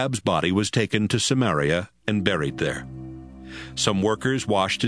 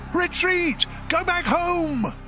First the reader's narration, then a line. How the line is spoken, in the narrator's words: someone in Israel's army shouted to the others